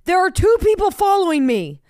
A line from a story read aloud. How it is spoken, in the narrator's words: They said I screamed